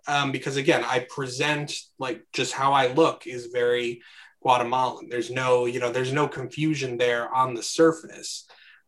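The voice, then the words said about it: Classic Midwestern American accent. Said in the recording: “they can hear like a very classic, you know, Midwestern accent”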